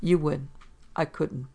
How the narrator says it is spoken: He said evenly

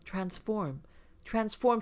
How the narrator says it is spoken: she cried again, her voice rising like a song

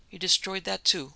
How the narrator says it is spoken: queried the doctor sharply

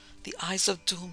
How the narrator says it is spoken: muttered hoarsely

